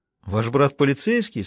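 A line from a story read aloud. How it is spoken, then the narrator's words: Laughing question. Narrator (Russian): смеясь, переспросил Пуласки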